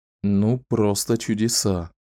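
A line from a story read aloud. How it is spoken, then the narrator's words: Mutter. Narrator (Russian): пробормотал Ричард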